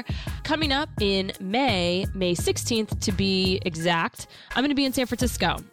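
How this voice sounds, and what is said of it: Unusual, subpar cold-affected voice. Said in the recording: “my voice is kind of not normal. I'm battling a bit of a cold ... my subpar voice”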